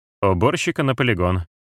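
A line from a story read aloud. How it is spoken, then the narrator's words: Level, even voice. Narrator (Russian): Тибериус ровным голосом сказал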